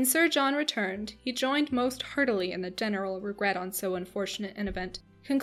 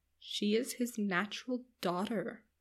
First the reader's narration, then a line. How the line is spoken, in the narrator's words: lowering her voice a little, she said to Eleanor